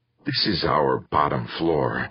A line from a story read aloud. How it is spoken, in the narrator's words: the slightly pudgy man said in a self-effacing whisper